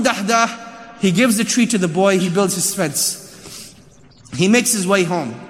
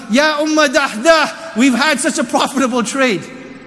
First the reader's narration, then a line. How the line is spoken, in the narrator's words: he's shouting to his wife